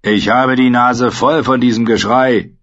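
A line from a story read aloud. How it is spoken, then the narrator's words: Called upward. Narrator (German): rief nach oben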